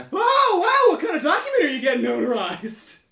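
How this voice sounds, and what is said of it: Overly loud screaming character voice. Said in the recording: “in a voice that's way too loud ... Can you stop screaming?”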